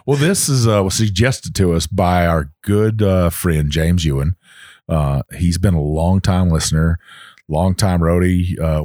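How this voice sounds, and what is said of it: Southern Texas accent. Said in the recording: “I got a Southern accent. ... Texas accent. ... Texas, Virginia, Kentucky. It's all mixed in together ... you can really tell you got a Texas accent”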